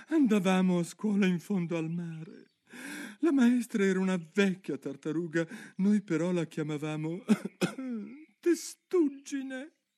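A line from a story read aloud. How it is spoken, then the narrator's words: Calmer, with occasional sobs. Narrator (Italian): disse finalmente la tartaruga d'Egitto più placida, ma sempre con un bel singhiozzo di tanto in tanto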